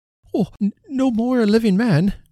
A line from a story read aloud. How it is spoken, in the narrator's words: cried Trotty